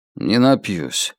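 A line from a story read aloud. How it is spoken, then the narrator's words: Sullen mutter. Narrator (Russian): угрюмо буркнул он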